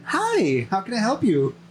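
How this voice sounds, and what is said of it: Bright, shiny customer service voice. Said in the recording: “my transition into my customer service voice... you go from regular SpongeBob to that very shiny oval SpongeBob”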